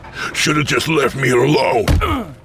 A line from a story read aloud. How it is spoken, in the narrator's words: he barked